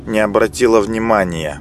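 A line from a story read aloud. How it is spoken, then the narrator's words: Smug snort. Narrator (Russian): самодовольно хмыкнула Милана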